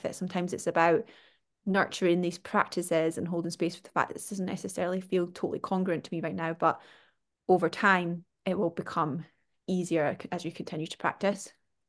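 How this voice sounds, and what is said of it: Scottish accent. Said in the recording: “my Scottish accent”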